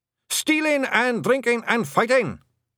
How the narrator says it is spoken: shouted the blue men cheerfully

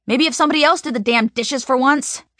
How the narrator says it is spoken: she shouts again

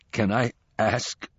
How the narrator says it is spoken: gasped Shadow

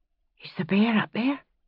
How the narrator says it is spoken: Aidan whispered to Roger

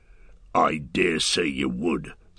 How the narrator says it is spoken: snarled O'Glook

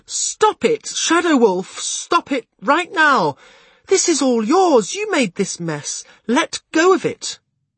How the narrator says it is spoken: she exclaimed

